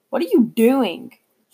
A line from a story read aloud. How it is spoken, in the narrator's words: said, yelling